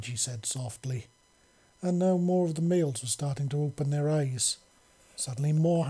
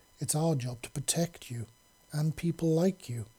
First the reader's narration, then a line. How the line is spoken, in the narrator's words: Reggie said softly